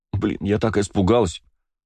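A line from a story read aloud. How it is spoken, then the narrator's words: Sobbing. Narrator (Russian): всхлипнула Кристина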